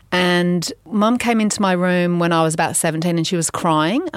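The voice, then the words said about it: Slight English accent. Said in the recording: “I have a bit of an English accent, even though I am French”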